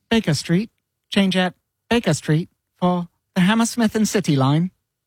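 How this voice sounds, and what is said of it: Imitates automated London Underground announcer. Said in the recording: “my best impression ever is the automated voice from the London Tube circa 2001.”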